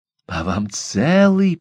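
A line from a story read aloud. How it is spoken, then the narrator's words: Hiss. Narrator (Russian): прошипела Сагон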